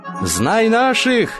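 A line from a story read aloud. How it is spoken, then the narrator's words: Shouting. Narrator (Russian): закричал он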